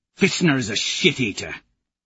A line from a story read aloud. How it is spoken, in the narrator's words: he sneers